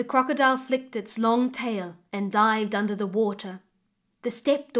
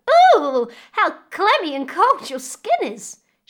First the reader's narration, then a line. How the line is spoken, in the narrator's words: she cried